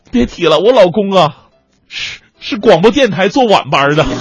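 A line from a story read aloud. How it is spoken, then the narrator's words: Crying while speaking. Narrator (Chinese): 这姑娘一边哭一边说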